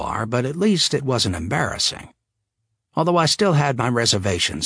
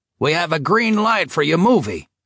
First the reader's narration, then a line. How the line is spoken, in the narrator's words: he roared